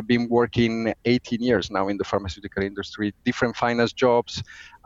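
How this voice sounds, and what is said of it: Italian accent. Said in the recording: “as you probably get from the accent, I'm Italian”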